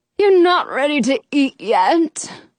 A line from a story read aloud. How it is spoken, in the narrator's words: the witch groans